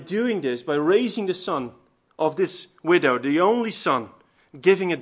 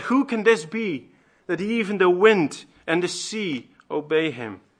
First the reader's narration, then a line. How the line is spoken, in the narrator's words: they cried out